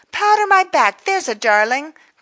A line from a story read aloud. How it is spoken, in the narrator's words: cried someone else